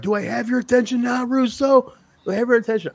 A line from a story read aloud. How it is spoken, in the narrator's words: he's yelling